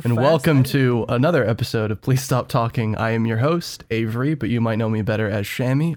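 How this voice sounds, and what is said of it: Golf announcer voice. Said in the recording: “this weird golf announcer voice”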